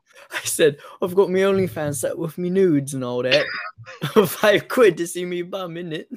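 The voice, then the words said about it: Put-on British accent. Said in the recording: “with a British accent”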